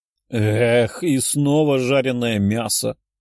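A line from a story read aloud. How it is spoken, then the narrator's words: Sighing. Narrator (Russian): вздохнула Лиза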